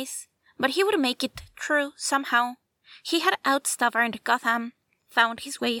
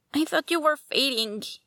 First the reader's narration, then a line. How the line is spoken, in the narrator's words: choked